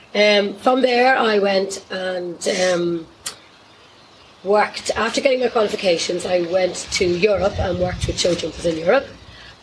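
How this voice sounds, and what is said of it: Hoarse voice. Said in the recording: “hence the um, voice. ... I was teaching Pony Club in Punchestown last night for two hours, so that's why my voice is a bit hoarse.”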